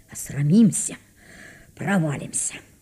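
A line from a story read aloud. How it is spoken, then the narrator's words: Nervous shivering mutter. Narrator (Russian): пожимаясь от холода и волнения, бормотал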